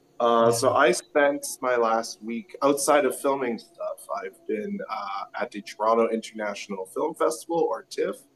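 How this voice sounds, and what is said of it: Congested voice from a cold. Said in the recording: “I am sick. I have a cold. ... my voice is different today”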